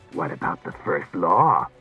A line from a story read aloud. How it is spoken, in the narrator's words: mocked Klusar